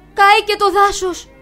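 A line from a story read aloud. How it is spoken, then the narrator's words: Frightened deer crying out. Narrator (Greek): φωνάζει τρομαγμένο το ελάφι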